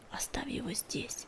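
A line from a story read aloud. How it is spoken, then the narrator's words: Heartbroken whisper. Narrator (Russian): прошептал он, хотя сердце у него разрывалось при мысли о том, что старика придется бросить на берегу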